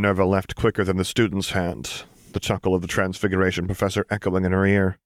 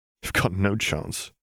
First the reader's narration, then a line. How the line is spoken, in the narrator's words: Harry snorted